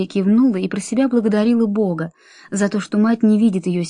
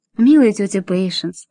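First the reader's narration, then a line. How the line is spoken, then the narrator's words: Affectionate, gentle. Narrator (Russian): сказала Мэри ласково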